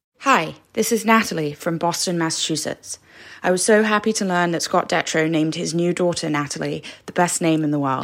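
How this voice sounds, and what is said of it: Strong Boston accent. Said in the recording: “That Boston accent. You just can't miss it.”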